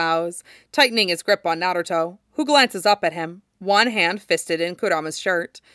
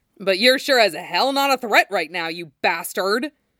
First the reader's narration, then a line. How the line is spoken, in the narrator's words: Obito snarls, full of fury